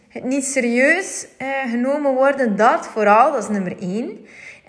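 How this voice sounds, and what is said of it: West Flemish accent. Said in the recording (Dutch): “het West-Vlaams accent, eh, dus, eh, mijn taalgebruik”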